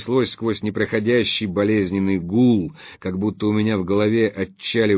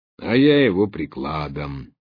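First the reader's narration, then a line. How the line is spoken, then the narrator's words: Thoughtful added remark. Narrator (Russian): задумчиво добавил второй голос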